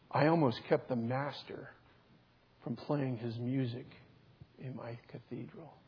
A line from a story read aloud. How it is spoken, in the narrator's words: he said softly